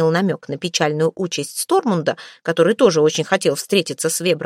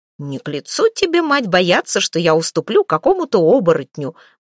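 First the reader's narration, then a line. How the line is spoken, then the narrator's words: Cheerful smirk. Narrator (Russian): бодро усмехнулся Фридмад Ярл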